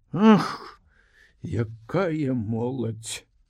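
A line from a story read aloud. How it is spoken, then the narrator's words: Sighing. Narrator (Belarusian): уздыхнула Бася Ісаковна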